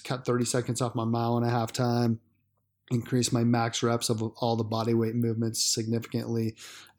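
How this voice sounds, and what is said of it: Hoarse, worn-out voice. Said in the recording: “my voice, I've been getting over a cold. So my voice is kind of shot.”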